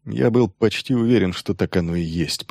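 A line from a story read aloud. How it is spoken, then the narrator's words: Mutter. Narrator (Russian): пробормотал Грегор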